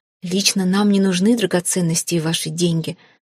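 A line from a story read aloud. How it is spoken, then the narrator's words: Calm explanation. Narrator (Russian): спокойно пояснил Хейга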